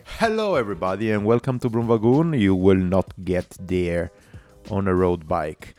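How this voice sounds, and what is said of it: Congested, strained-sounding voice. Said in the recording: “Sorry for my voice, ... I have the hay fever”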